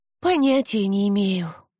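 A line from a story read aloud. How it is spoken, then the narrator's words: Tired reply. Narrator (Russian): устало ответила Ромейн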